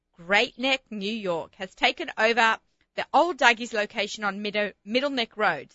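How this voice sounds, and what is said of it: Australian accent, speaking slowly. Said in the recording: “say it slowly so my Australian accent doesn't sound so funny when I swallow up the words”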